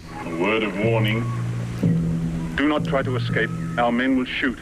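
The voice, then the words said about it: Terrible put-on accent. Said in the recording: “exercises his terrible accent”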